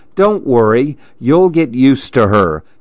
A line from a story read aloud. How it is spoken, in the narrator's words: said her friends